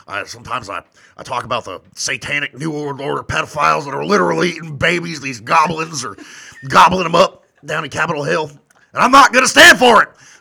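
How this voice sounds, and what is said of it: Imitates another person's voice. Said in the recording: “I speak Alex Jones ... that's my Alex Jones impression ... That's pretty good.”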